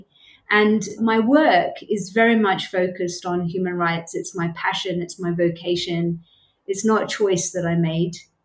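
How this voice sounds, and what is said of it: British accent. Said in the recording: “As people will probably be able to tell from my accent, I'm from the UK, born and brought up in the UK”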